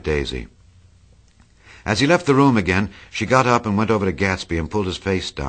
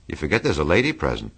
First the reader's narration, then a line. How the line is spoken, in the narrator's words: said Jordan